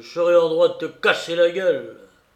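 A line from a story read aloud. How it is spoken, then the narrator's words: Shouting. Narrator (French): cria-t-il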